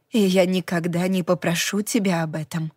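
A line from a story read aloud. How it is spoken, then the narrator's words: Soft reassurance. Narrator (Russian): мягко заверила она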